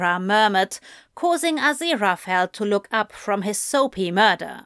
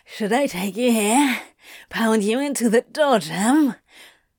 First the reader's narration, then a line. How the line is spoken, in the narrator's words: Crowley hissing